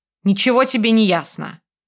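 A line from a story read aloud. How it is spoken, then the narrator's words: Growled. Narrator (Russian): рыкнул Марк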